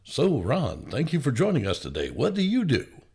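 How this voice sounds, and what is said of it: Dry, formal radio announcer voice. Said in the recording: “it was very dry. It was my radio voice.”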